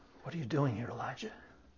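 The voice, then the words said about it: Whispering. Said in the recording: “in a whispered voice”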